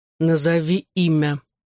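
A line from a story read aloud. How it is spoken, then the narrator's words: Growling. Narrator (Russian): прорычал Джонни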